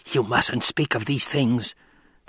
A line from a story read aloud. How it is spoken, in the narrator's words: the old woman hissed